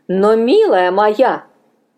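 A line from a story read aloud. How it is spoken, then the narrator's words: Firm objection. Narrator (Russian): возразила Мина и решительным тоном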